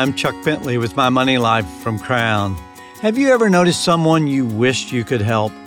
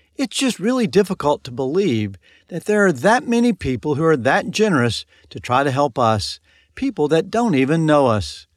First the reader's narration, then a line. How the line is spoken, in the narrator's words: exclaimed